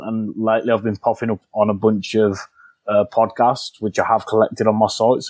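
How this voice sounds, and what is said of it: Noticeable non-native accent. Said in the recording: “my bad accent ... you have a charming accent”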